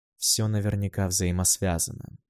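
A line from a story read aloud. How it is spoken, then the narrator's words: Quiet speech. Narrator (Russian): проговорил я тихо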